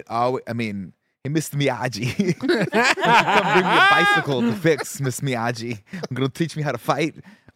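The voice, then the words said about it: Ralph Macchio impression, Jersey accent. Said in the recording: “Can Ralph Macchio? ... he's from Jersey, so he had that Jersey accent. I think, you know, Macchio kind of had that back in the day.”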